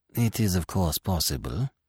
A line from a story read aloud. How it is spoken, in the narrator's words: said the magistrate smoothly